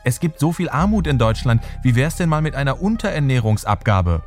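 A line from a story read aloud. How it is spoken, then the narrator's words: Ambitious aide calling out. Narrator (German): ruft ein ehrgeiziger Referent Theo Weigel zu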